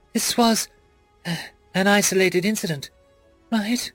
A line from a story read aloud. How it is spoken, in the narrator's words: I whimpered